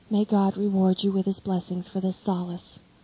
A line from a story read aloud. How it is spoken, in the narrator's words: he then says